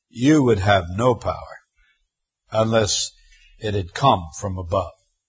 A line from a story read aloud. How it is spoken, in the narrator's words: our Lord, with quiet dignity, simply replies calmly